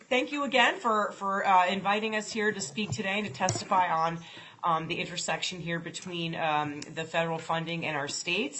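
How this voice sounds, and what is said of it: Voice with a cold. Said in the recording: “I have a cold that I'm getting over, so if I start coughing”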